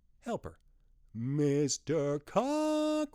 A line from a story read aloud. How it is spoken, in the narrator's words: She called out